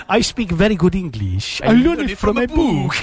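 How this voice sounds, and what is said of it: Put-on comic Spanish waiter accent. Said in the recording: “she needs to be Manuel ... I can't do the accent”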